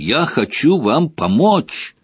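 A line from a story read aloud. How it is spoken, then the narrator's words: Roaring like wounded hippo. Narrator (Russian): Взревев, как раненый гиппопотам, дядя Вернон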